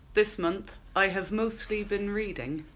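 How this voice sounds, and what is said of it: Attempted put-on accent. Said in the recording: “I'd like to apologise to everybody for the attempted accent there.”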